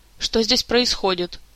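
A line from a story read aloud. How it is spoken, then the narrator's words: Stern question. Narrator (Russian): строго вопросил придворный маг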